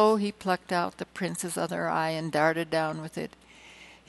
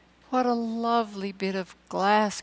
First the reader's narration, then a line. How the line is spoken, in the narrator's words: cried the little girl